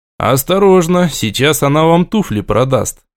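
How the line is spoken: Grumbled mutter. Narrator (Russian): буркнул я

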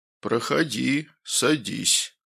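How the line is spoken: Fake deep bass voice. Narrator (Russian): произнесла фигура напускным басовитым голосом

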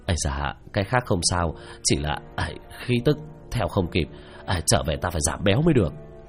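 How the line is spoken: Breathless panting speech. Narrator (Vietnamese): Tứ Bảo miệng đã thở hổn hển nói

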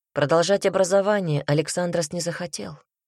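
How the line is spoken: Plain. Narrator (Russian): сказал господин Монолакис

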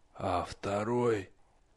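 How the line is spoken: Hoarse question. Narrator (Russian): хрипло спросил Насм

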